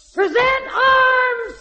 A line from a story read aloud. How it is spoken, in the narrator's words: yell